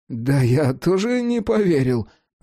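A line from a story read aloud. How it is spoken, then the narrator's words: Amazed cat, groaning. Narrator (Russian): застонав, сообщил изумленный кот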